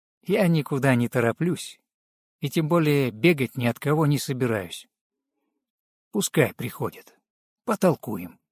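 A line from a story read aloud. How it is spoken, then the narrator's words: Calm reply. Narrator (Russian): спокойно ответил Руслав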